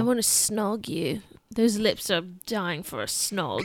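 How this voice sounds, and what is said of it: Good put-on British accent. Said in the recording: “That was a really good British accent”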